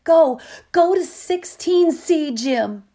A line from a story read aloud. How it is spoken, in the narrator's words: she screamed it